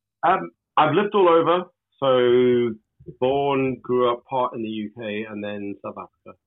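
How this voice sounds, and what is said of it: Mixed UK and South African accent. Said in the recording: “hence the weird accent... Mongrel accent, I'm afraid.”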